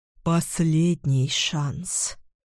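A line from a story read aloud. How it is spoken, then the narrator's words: Hoarse breathy exhale. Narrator (Russian): хрипло выдыхает Володя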